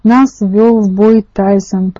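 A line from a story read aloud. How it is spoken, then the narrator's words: Growling. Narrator (Russian): прорычал один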